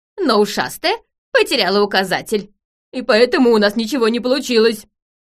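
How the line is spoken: Loud announcement. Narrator (Russian): громко сообщил Нелепый

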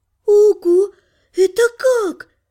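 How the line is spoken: Stunned exhale. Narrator (Russian): ошарашенно выдохнула Лана

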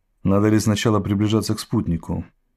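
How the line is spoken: Plain. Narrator (Russian): спросил Грифрифт

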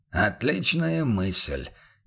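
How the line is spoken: Quiet remark. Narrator (Russian): негромко поддал голос Бруно

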